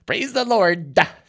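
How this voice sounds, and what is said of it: Exaggerated drawl on 'Lord'. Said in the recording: “I like the accent at the end. ... It's like that thing where the guy goes, you know, the lard is good to me. The lard.”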